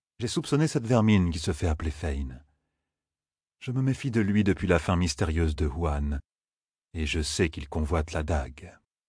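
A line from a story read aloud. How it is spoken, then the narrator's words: Very calm lord. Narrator (French): dit très calmement le haut seigneur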